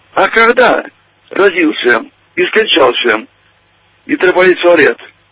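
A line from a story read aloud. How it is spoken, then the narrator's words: Loud answer from student. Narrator (Russian): один студент громко ответил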